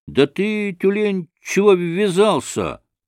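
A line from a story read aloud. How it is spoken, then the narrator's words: Shouted at someone. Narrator (Russian): закричал на него первый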